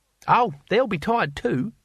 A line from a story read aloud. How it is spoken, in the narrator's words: said Cohen cheerfully